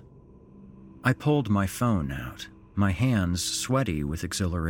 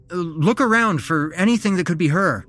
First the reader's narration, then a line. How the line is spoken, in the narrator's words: I blurted out